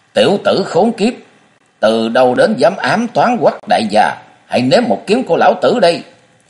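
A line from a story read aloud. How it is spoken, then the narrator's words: Angry shout. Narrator (Vietnamese): giận dữ quát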